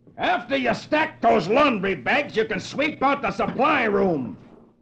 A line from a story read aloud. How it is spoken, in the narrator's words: One of his officers shouts at him